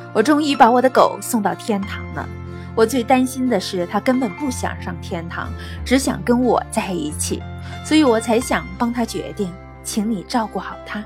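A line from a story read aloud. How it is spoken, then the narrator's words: Smiling. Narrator (Chinese): 主人笑了，他扭过头对天使说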